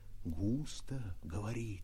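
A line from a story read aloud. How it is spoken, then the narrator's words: Excited whisper from behind. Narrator (Russian): Сзади меня восторженно шептали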